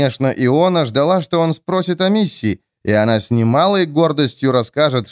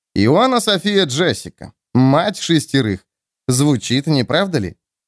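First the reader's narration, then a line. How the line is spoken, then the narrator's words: Snide recitation. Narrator (Russian): Эрвин ехидно продекламировал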